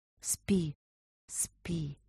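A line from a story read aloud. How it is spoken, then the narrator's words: Whispered. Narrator (Russian): прошептала она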